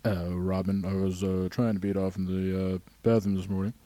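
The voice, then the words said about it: Imitates another person's voice. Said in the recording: “you became Howard Stern”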